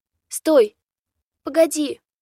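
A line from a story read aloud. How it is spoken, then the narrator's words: Shout. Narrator (Russian): крикнула Богдана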